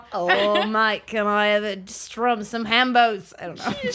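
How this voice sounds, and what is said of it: Put-on Australian accent. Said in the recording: “I think I'm just doing my Australian accent ... How to do a New Zealand accent.”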